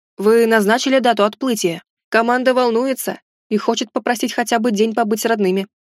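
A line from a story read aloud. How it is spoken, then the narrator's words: Plain. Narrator (Russian): спросил он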